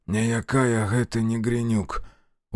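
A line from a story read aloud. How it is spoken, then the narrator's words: Dejected, sinking voice. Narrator (Russian): упавшим голосом ответил Демьян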